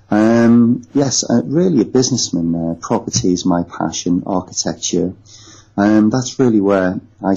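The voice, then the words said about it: Northwest English, Liverpool-like accent. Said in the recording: “My accent is not far from Liverpool. So obviously everybody thinks that I'm from the same place as the Beatles”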